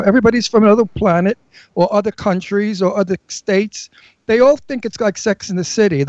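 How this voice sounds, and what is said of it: New York accent. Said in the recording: “I'm born in Brooklyn. I'm a New Yorker. ... I can hear it in your accent. ... I never lose it, because I don't want to sound like a Californian”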